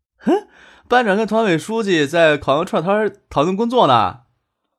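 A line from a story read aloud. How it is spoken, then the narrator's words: Cheeky, grinning. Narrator (Chinese): 杜飞嬉皮笑脸的说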